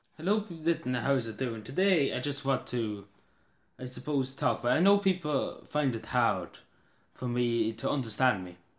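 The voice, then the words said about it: Strong Irish Cavan accent. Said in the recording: “a real Irish accent ... if you take a Cavan accent”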